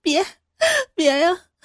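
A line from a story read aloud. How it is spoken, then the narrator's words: Crying. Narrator (Chinese): 哭着说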